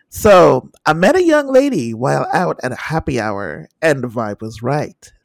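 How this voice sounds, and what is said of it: Exaggerated sexy voice. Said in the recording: “sexy voice”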